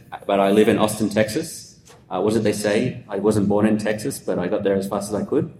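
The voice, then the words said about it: Australian accent. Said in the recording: “I'm originally from Australia, as you can tell from the accent”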